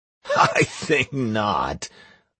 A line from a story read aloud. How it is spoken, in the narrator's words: laughed Do Not Punic